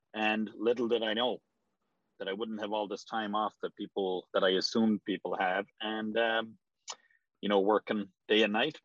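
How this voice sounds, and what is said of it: Irish accent. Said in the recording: “So that accent doesn't sound native to the Boston area. ... From Ireland originally.”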